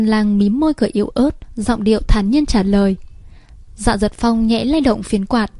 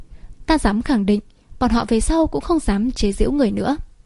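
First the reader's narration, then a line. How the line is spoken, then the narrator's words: Laughing, glaring. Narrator (Vietnamese): Thành Báo bật cười, trừng mắt nhìn nói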